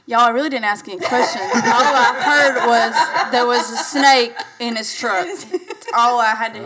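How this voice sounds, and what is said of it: Strong Southern country accent. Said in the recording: “is my accent that strong today? ... I actually love country accents. ... Let's hear them Alabama people talk.”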